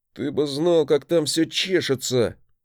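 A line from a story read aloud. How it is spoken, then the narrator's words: Moaning growl. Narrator (Russian): Не то простонал, не то прорычал он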